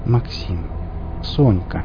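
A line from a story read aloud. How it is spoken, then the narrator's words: Gentle, as to children. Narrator (Russian): мягко, словно беседуя с детьми, начал вещать второй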